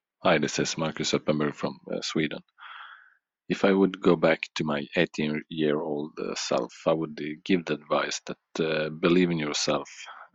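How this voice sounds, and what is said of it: Foreign accent in English. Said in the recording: “I'm loving all you guys' accents”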